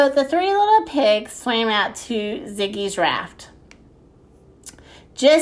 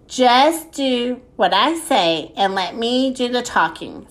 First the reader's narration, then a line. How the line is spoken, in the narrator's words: said Ziggy